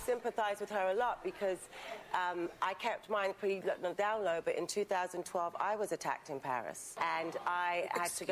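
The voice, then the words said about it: British accent. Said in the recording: “she's got that British accent ... Because I'm watching the clip going, who is this? Even though I know who it is, it just kind of threw me off.”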